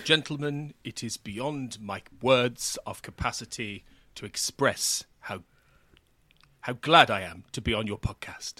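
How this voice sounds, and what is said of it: Attempted posh British impression. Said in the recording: “that was an attempt at David Warner. It sounds more like Margaret Thatcher ... someone who might be vaguely British”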